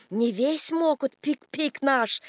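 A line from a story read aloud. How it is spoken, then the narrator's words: Hoarse wheezing. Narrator (Russian): Кинг хрипит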